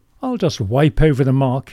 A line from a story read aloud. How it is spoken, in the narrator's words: said cheerfully